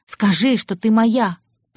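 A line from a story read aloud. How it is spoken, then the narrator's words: Growl. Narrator (Russian): прорычал он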